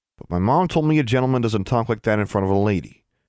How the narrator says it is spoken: he continued hastily

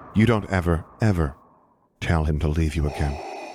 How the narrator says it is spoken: she said softly

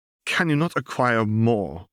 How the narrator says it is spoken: asked irritably

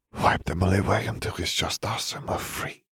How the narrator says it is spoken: Fleur whispered

